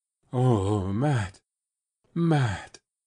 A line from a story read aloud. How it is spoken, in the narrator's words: he groaned